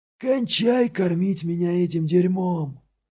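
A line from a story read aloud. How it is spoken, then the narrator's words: Shouted. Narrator (Russian): выкрикнул Сало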